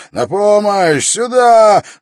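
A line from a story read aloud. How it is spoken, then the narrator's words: Yelling. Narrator (Russian): завопил он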